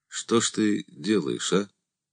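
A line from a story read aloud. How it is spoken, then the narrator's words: Quiet question. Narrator (Russian): тихо спросил Андрей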